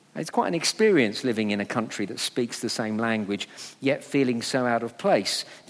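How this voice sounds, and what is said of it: English accent. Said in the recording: “you can hear it in my accent when I talk, I'm an Englishman in New York ... by my accent, everyone could tell I didn't belong there”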